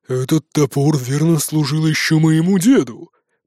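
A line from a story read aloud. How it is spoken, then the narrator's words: Grumbled. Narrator (Russian): проворчал тот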